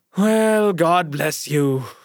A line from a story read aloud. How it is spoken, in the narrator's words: sighed Nikolay Sergeich